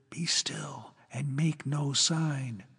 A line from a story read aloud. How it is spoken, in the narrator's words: Prudence whispered